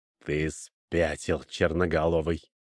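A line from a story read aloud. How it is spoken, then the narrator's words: Hissed indignantly. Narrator (Russian): прошипел вельможа, который от возмущения даже пошел пятнами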